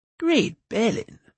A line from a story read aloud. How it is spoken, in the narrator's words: murmured the bard